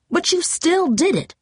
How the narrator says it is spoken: Mom replied sharply

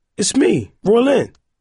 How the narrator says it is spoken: he said anxiously

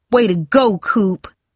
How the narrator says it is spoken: Tara yelled above them all

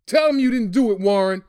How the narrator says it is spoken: Dad pleaded

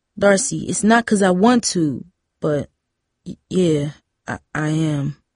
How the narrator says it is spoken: he stammered

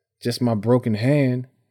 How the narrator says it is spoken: Tyree answered

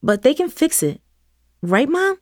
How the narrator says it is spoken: Christian asked, his voice strained with worry

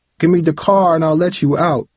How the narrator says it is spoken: Travis yelled back

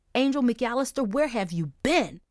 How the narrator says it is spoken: shouted

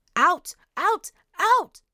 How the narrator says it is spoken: she screamed

